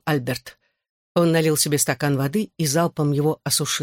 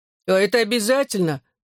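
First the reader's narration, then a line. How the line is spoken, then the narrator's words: Whimpering. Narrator (Russian): захныкал Алфи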